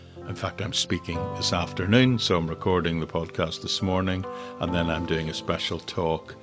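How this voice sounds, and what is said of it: Northern Irish accent. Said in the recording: “You probably tell from my voice I'm originally from Northern Ireland.”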